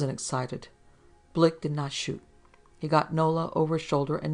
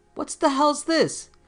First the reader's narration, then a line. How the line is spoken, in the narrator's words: A policeman yelled